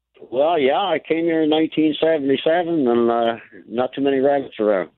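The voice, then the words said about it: Newfoundland accent. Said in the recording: “What's your accent? ... Are you a Newfoundlander? ... you didn't lose the accent in all those years”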